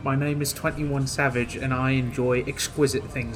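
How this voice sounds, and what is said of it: Put-on posh British accent. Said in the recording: “This nigga hit the British blip, bro... Nigga hit the tea and crumpets on us.”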